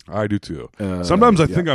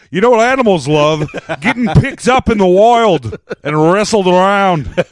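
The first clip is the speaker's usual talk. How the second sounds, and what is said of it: Put-on Australian accent. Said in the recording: “I'm good at Australian accents, and then I'm like, I'm just... hilariously bad at them ... I used to do a big time Steve Irwin ... Steve Irwin. That's a good point of reference when trying to come up with the accent.”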